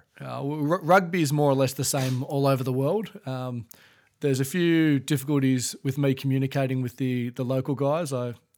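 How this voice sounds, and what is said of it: Australian English accent. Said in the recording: “I speak Australian English. ... they make fun of my accent a fair bit”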